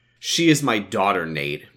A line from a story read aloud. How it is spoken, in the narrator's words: Brian replied dryly